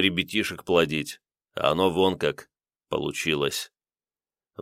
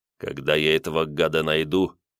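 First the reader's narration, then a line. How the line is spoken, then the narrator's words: Angry speech. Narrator (Russian): зло проговорил Семенов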